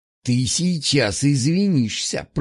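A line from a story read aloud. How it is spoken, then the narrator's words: Hissed. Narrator (Russian): прошипел он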